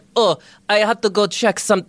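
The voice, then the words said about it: Bad put-on French accent. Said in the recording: “my French accent. ... which is very bad.”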